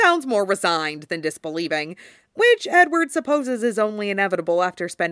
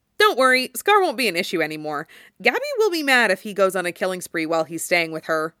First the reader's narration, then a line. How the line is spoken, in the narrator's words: he says in his most reasonable tone of voice